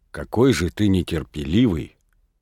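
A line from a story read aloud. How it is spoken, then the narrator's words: Low voice. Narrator (Russian): говорила она ему вполголоса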